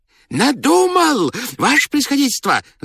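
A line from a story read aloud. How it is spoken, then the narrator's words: Joyful shout, altered voice. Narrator (Russian): закричал он радостно, не своим голосом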